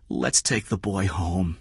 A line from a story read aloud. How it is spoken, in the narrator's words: Kathy said softly